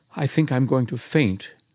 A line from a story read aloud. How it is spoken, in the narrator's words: she murmured